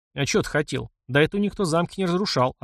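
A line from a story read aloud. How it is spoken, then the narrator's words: Plain. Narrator (Russian): ответил гном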